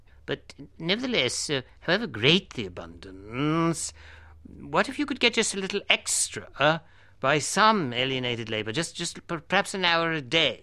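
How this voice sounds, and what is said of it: Pedantic posh Oxford accent. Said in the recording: “it should really be done in a very pedantic Oxford accent”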